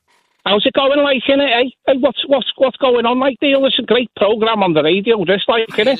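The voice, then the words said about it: Put-on Scouse accent. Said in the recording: “I can do quite a good Scouse accent ... Do the Scouser ... I love that accent. I love Liverpool people”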